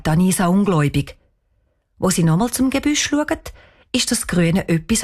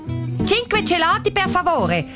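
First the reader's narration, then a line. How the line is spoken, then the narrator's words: Loud voice. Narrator (German): sagt sie mit lauter Stimme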